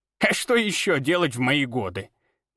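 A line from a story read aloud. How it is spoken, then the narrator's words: Old woman's pleased snort. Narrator (Russian): довольно фыркнула старуха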